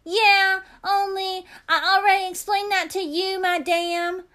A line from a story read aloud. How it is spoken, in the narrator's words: I shouted at Lucille's face